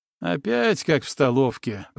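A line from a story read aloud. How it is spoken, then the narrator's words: Grumbling. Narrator (Russian): проворчал Тула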